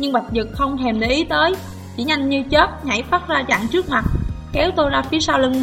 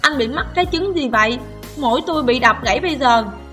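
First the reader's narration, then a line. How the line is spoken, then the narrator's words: Moaning in pain. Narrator (Vietnamese): đau tới mức rên rỉ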